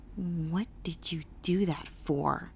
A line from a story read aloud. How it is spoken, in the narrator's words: I asked quietly